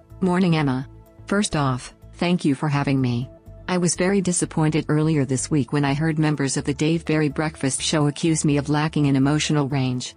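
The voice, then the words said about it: Monotone robotic voice. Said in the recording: “robot voice thing ... lacking in emotive range ... you're sort of monotone”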